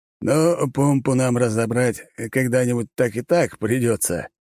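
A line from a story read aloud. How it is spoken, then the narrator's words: Wry grunt. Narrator (Russian): хмыкнул Лажон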